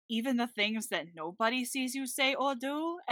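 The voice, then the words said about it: Cartoon bear character voice. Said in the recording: “Bobby McFerrin was losing grip on that accent ... every time you do Bully Bear ... your accents”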